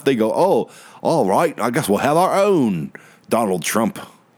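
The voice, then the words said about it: Bad put-on English accent. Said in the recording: “That was a terrible, terrible English accent.”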